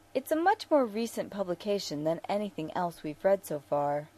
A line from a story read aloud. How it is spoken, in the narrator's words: Bashir said, keeping his tone idle and light